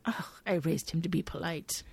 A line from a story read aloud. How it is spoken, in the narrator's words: Gemma mutters to Duffy